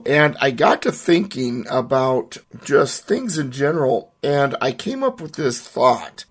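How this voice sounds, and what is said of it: Voice still slightly affected. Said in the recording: “I had bronchitis. You can still probably hear it in my voice a little bit”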